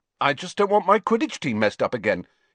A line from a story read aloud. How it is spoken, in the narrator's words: he said hastily